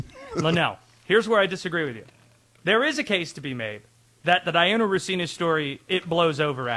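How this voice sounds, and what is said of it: Usual voice. Nothing is said of it.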